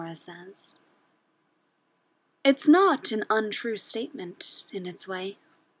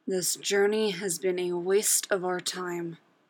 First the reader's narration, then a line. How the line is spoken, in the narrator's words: Drax growls